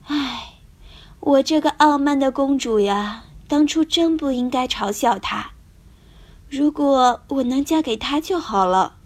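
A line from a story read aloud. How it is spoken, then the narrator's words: Princess sighing. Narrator (Chinese): 公主叹了口气，说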